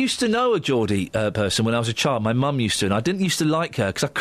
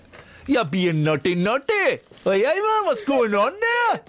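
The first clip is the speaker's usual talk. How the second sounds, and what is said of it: Put-on Geordie accent. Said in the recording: “That's, seriously, that is my best Geordie accent”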